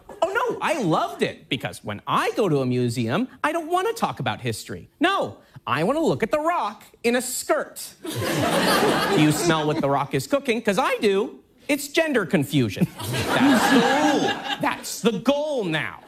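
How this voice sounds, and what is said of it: Imitates another person's voice. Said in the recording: “it's a pretty good impression ... It does sound exactly like Tucker Carlson ... that little blurt of questions that go pop, pop, pop, pop”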